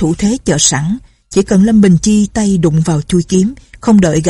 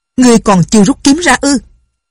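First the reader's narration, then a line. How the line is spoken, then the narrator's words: Old man shouting. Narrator (Vietnamese): Lão liền quát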